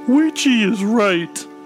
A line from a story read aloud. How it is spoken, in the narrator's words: he sobbed